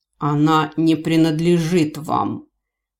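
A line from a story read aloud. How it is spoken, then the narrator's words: Menacing growl. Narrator (Russian): От ответного рычания спасителя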